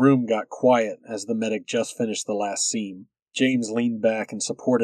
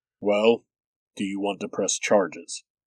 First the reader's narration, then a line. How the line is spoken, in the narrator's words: Utan asked, his voice getting more serious